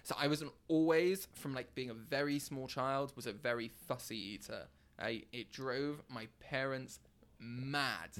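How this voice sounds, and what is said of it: British accent. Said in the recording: “sounded so British ... with the British accent as well”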